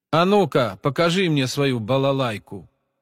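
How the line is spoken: Commanding tone. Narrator (Russian): Повелительным тоном приказал один из парней

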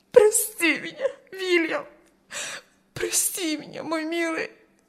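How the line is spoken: Sobbing. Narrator (Russian): Рыдала она

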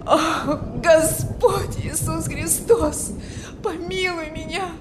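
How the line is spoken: Desperate moan. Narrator (Russian): Стонал он в отчаянии

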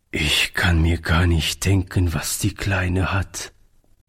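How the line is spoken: Said sadly. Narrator (German): sagte Oliver traurig

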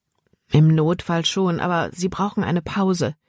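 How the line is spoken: Plain. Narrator (German): sagte Caleb

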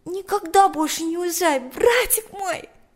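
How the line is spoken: Exclaimed. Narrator (Russian): воскликнула она

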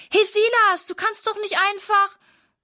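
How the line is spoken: Calling after someone. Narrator (German): ruft Sarah ihm hinterher

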